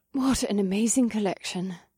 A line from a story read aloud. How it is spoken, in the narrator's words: Samara breathed, in amazement